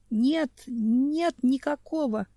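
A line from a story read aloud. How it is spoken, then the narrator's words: Barely audible, strained. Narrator (Russian): еле слышно выдавил из себя Ванкул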